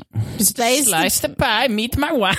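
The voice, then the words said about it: Comedic put-on Borat-style accent. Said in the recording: “Why are you doing that Borat impression?”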